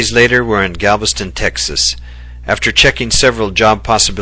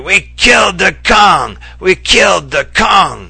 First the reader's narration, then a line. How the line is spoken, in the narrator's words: He begins making animal sounds and shouting hysterically